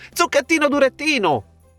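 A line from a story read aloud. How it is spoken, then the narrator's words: Shrieked by several voices. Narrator (Italian): strillarono altri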